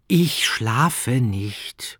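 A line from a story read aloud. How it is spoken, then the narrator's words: Sigh. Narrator (German): seufzte er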